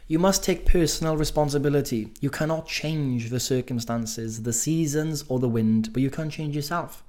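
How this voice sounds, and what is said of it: Welsh accent. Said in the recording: “I've just got a silly Welsh accent, I can't say these English words.”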